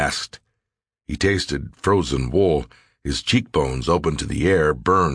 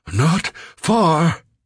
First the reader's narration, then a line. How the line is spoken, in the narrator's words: gasped